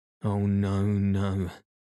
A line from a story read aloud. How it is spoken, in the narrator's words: moaned Mrs